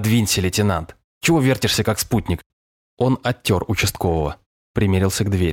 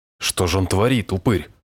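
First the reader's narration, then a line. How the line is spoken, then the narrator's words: Pale muttering. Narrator (Russian): Пробормотал бледнее Мишка Островой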